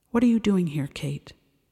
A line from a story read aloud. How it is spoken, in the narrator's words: asks Decker